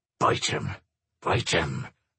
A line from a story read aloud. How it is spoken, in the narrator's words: muttered Willie under his breath